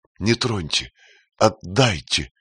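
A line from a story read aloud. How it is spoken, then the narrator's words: Pleading. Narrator (Russian): взмолилась Мирям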